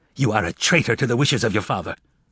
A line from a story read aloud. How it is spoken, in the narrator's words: Toby snapped, his face now flushed red with anger